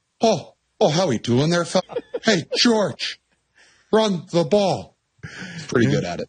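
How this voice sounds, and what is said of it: Imitates another person's accented voice. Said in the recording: “a great accent”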